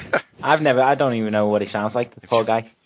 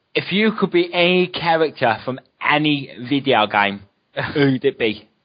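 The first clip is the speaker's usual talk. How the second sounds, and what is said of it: Put-on Cockney accent. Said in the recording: “Go do this in a Cockney accent.”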